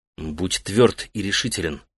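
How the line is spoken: Quiet firm voice. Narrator (Russian): негромко сказал он

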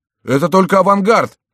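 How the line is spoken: Defensive shouting crowd. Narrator (Russian): кричали граждане, желая оправдать свое отступление

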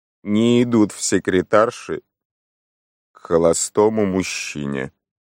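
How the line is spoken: Sepulchral voice. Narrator (Russian): сказала мисс Уэзерби за могильным голосом

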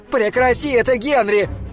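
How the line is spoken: Shouting. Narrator (Russian): кричала она

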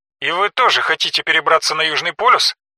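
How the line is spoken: Laughing. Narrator (Russian): Джинджер засмеялась

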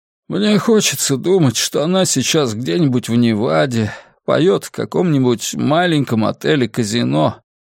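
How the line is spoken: Sighing. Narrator (Russian): вздохнул он

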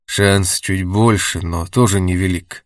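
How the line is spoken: Sighing. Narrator (Russian): вздохнул Сергеев

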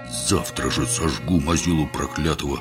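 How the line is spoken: Swore through gritted teeth. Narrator (Russian): сквозь зубы побожился Горох

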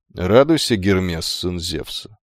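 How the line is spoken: Calm, dignified greeting. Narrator (Russian): спокойно приветствовал юношу амфитрион, произнося каждое слово с уверенным достоинством

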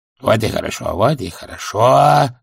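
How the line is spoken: Muttering. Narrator (Russian): забормотал Золт

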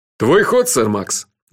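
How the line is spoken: Cheerful. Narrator (Russian): весело сказал Джуфин

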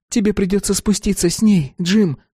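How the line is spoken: Breathed out. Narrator (Russian): выдохнула Салли

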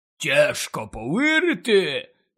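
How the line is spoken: Hoarse rasp. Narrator (Ukrainian): прохрипів Гегріт

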